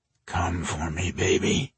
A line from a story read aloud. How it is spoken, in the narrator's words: he murmured